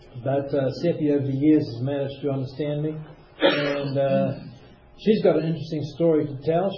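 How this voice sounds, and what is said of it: Strong accent, hard to understand. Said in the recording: “you guys find my accent weird and hard to understand”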